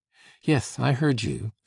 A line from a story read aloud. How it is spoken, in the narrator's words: said the lady in a vivacious voice